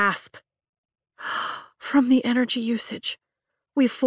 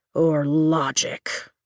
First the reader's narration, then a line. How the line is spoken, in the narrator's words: he grumbles